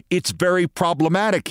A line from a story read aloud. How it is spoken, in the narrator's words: said